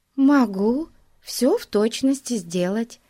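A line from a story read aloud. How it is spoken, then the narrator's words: Plain. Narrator (Russian): сказала Глэдис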